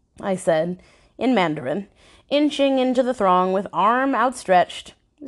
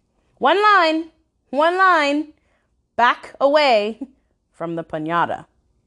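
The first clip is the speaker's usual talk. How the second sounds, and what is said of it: Raised, louder voice. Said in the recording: “I raised my voice. ... I urged louder.”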